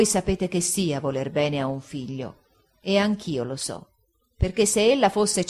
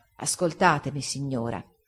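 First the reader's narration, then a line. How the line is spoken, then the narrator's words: Soft and calm. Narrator (Italian): egli rispose, piano e calmo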